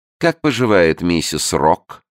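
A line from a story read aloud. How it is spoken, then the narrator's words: Snide question. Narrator (Russian): ехидно спросила она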